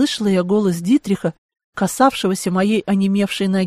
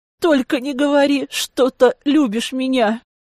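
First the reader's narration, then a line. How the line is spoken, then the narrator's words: Moaning. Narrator (Russian): Застонала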